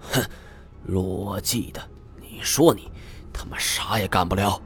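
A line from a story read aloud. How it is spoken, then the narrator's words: Discontented muttering. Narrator (Chinese): 老金是不满的嘟囔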